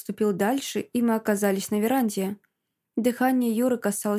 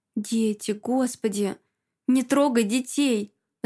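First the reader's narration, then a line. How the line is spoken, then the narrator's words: Tearful pleading. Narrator (Russian): Взмолилась я сквозь слезы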